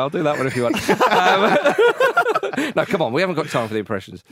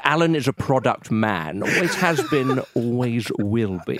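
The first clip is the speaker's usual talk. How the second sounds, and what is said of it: Imitates another person's voice. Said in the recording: “does a passable, and I emphasise the word passable, impression of Nick Hewer”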